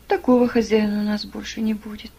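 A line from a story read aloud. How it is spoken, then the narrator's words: Glum. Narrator (Russian): уныло продолжал Адольф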